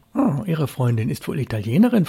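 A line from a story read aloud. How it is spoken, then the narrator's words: Plain question. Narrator (German): fragte Helge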